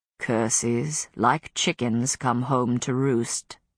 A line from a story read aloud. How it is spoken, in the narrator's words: Philippe murmured